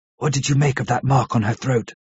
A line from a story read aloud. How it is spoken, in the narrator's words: asked in a whisper